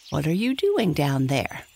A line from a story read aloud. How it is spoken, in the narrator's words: asked Happy Jack